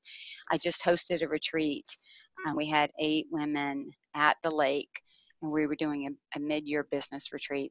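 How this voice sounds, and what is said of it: Hoarse, tired voice. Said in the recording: “my voice sounds a little hoarse ... she sounds like she's exhausted ... I am tired”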